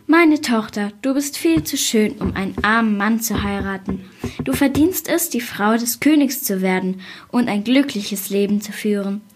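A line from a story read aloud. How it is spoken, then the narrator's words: Sighing father. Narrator (German): Da seufzte der Vater und sagte zu ihr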